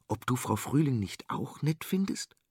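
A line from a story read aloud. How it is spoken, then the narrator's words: Insistent whisper. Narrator (German): flüsterte Theo und ließ nicht locker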